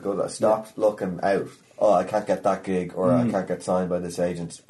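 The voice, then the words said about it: Irish accent. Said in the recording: “They don't like having an Irish accent.”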